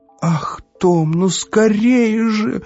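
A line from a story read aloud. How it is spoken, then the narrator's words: Shouting. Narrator (Russian): закричала Эвива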